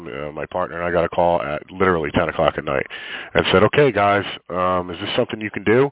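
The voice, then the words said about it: Stuffy, congested voice. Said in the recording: “I sound a little stuffy. I'm getting over some sort of cold here.”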